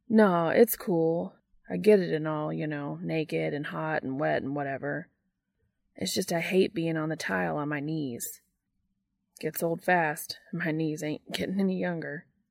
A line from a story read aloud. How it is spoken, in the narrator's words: says with a grunt